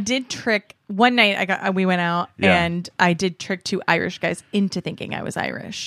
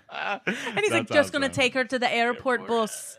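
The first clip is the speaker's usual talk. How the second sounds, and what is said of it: Put-on Scottish accent. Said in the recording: “your Scottish accent? ... Yeah, was that okay? ... That's better.”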